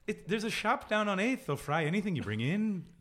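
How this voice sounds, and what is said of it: Put-on sing-song Irish accent. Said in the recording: “The Irish is a bit easier because it's a bit of a sing-song ... Send us some emails about ... accents”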